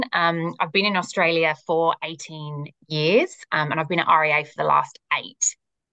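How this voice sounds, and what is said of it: British accent. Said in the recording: “I'm originally from the UK, as I'm sure you can pick up from the accent.”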